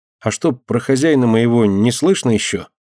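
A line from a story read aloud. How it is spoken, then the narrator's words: Stubborn then timid question. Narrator (Russian): упрямо сказал Ленька и вдруг робко спросил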